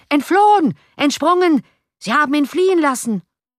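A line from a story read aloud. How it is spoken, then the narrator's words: Furious shouting crowd. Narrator (German): Andere vor Zorn glühende Gesichter … schrien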